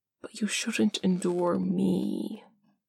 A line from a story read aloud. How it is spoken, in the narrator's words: Parm whispers